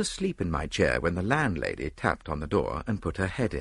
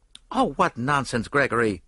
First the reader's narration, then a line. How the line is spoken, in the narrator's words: said Mary Marvel sharply, but she flushed angrily